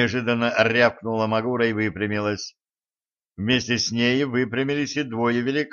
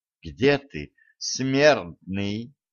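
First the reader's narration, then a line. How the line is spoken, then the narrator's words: Quiet call. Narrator (Russian): негромко позвала она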